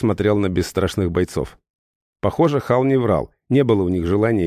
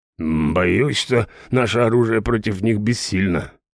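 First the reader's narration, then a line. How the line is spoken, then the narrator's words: Grumbling big man. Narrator (Russian): проворчал здоровяк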